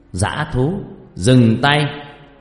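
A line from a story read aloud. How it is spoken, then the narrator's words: Monk shouting from afar. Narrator (Vietnamese): vị sư từ phía xa đã hét lớn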